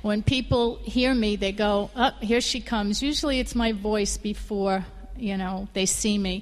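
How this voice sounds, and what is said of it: New York accent. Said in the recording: “I'm a native New Yorker ... So native New Yorker is what I am. And in case you didn't notice it, you could probably tell from my accent.”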